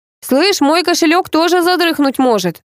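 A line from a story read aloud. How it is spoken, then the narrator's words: Bark. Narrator (Russian): рявкнул Павел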